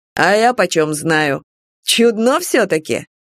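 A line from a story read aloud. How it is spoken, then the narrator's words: Snapping. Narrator (Russian): Хэнк огрызнулся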